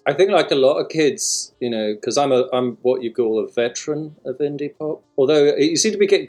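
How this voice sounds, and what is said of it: English, somewhat transatlantic accent. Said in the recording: “you got an English accent ... I probably sound transatlantic”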